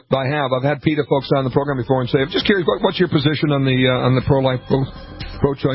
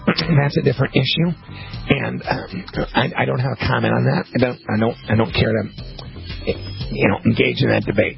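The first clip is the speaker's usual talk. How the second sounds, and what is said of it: Imitates another person's voice. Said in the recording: “my impression of when you ask that question, what happens”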